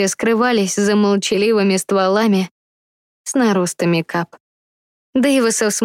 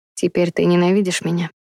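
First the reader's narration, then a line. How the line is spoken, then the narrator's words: Quiet question. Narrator (Russian): тихо спросил Сувей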